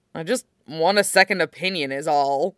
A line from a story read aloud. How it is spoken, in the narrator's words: John grumbles